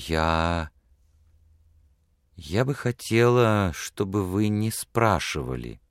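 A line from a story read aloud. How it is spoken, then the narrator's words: Soft woman. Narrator (Russian): мягко сказала она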